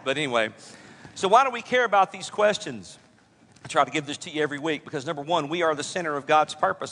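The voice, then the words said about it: Worn-out, hoarse voice. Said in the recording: “my voice has been given out”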